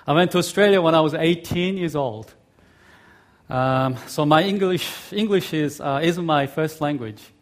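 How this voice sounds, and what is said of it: Mixed Korean, Australian, American accent. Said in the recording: “you might be able to pick up some American accent in my speech. In fact, my accent is a mixture of Korean, Australian, and American.”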